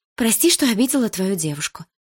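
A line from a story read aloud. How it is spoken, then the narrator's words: Blurted out. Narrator (Russian): выпалила Малина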